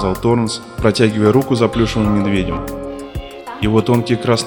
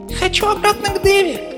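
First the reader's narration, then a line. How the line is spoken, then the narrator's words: Thin little voice. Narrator (Russian): произнес плюшевый мишка тоненьким голоском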